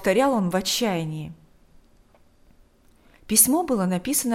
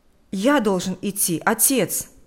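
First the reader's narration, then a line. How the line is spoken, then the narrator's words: Exclamation. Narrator (Russian): воскликнул Миша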